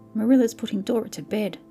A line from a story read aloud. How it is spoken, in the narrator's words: sobbed Davy